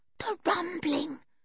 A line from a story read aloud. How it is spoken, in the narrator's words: whispered George